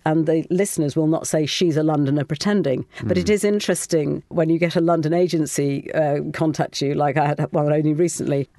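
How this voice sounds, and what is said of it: English RP accent, not heightened. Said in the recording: “this voice I'm speaking to you now is my voice. It's RP, but it's not heightened RP ... Which is not super southern because I'm from the Midlands”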